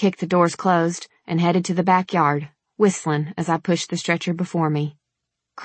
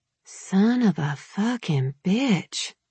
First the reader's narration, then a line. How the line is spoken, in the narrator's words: I muttered